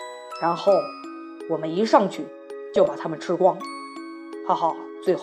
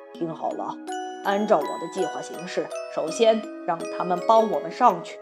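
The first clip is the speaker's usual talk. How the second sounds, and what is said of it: Quiet, hushed voice. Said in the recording (Chinese): “小声”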